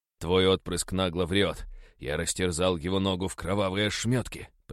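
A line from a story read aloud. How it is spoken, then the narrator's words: Growling. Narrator (Russian): прорычал я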